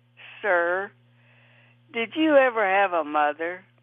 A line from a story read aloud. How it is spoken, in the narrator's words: the tenderfoot answered and sighed